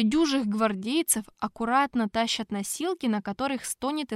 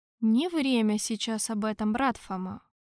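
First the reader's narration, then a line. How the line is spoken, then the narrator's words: Soft interruption. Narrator (Russian): мягко остановил Тарквимаду папа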